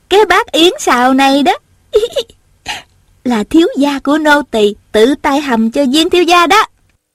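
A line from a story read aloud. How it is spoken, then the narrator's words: Giggling. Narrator (Vietnamese): Tiểu Cúc vừa cười khúc khích vừa nói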